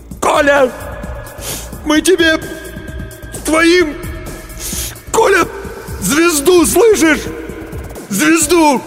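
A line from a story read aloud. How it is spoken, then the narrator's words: Sobbing shout. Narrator (Russian): Демин всхлипнул, крикнул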